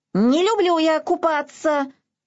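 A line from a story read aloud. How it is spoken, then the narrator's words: Squealing. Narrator (Russian): завизжал Изюмка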